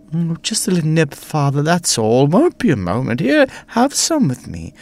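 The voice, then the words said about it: Smooth posh British accent. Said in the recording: “my smooth voice, my lovely voice, smooth and sweet, like caramel ... accent, very posh and British”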